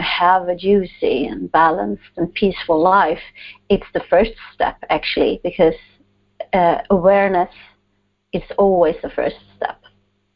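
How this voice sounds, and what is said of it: Slight Swedish accent. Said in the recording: “my guest has an accent. A little bit. ... all the way from Sweden”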